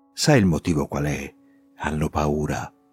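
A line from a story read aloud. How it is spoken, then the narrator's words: Conspiratorial low voice. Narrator (Italian): con aria di complotto mi dice sottovoce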